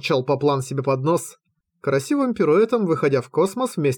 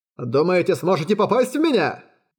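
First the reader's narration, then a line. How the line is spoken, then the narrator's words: Shouting. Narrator (Russian): закричал Поплан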